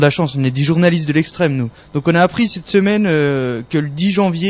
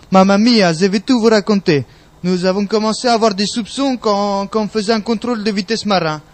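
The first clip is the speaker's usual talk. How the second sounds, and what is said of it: Exaggerated caricatured Italian accent. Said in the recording (French): “je vais remplacer son accent par un accent italien caricatural”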